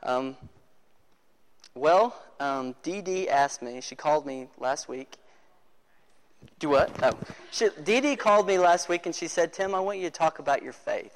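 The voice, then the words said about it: Hoarse voice. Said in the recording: “I'm kind of hoarse. I've been talking all day.”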